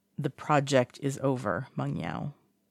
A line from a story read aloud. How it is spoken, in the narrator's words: Wang Ji says evenly